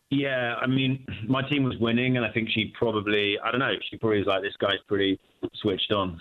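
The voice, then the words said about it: British accent. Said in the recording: “British guy. Love the accent.”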